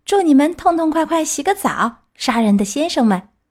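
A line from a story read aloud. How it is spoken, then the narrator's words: Laughing shout while running. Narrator (Chinese): 匹诺乔哈哈大笑，一面跑一面叫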